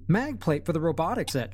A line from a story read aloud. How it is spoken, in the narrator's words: she said cheerfully